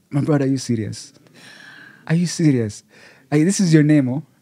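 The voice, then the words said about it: Deliberately poor Nigerian accent. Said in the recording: “I have a terrible Nigerian accent”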